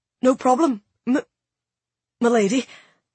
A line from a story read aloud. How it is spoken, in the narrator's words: he simply stammered